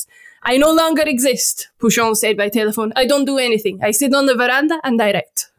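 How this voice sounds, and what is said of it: Shifting accent, French to Italian, Swedish, Jamaican. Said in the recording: “What accent was that? ... it started out French, and word by word, it changed accents. Like one Italy. In Sweden, yeah. Even Jamaican for a bit.”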